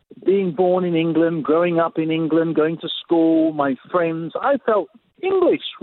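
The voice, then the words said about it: English accent. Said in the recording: “I still got my English accent.”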